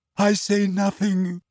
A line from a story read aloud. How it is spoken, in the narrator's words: she choked